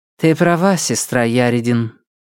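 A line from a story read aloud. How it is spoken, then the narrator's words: Sad sigh. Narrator (Russian): печально вздохнула Лирия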